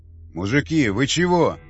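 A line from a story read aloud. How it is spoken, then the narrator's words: Exclaiming. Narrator (Russian): воскликнул Яхонтов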